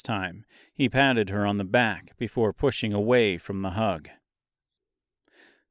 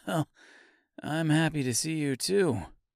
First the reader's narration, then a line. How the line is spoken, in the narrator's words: replied Mister with a kind-hearted chuckle